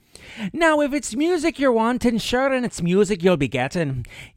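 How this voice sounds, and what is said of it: Stereotypical Irish accent. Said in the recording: “my Irish accent veers heavily into the stereotypical”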